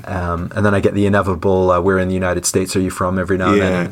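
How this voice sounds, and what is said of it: Canadian North American accent. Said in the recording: “I kept most of my North American accent. I'm Canadian, but every now and then it sort of drifts. I certainly don't have a British accent”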